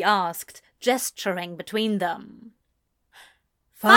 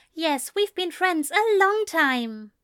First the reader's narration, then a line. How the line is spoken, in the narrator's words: Ezra offered cheerfully